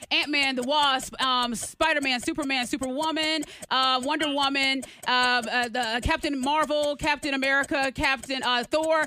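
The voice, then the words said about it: Rushed, out of breath. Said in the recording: “I'm out of breath.”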